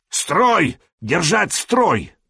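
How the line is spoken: Yelling in foreign language. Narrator (Russian): орал он не по-словенски, а по-ромейски

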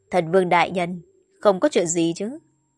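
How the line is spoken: Smiling, calling from afar. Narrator (Vietnamese): Một mỹ nhân mặt mỉm cười xa xa nói

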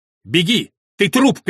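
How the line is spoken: Shouted. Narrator (Russian): крикнул Реджинальд

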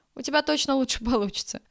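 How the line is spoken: Laughing. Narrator (Russian): рассмеялась повариха

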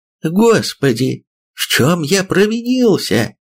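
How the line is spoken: High, almost feminine exclamation. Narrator (Russian): воскликнул неожиданно высоким, почти женским голосом руководитель нашей школы

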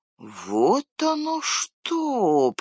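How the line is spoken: Drawn-out drawl. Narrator (Russian): протянул Мэри

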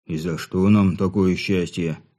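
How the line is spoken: Displeased grumble. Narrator (Russian): буркнул Бедрич, которому ситуация нравилась все меньше и меньше

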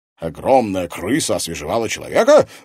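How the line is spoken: Bursting into laughter. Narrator (Russian): расхохотался Пивоваров

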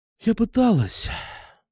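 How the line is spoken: Sighing. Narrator (Russian): вздохнула она

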